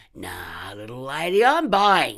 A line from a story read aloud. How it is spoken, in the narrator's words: he slurred